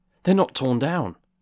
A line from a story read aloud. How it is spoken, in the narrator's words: cried Scrooge